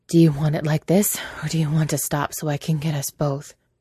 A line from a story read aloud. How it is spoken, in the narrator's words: he asked, panting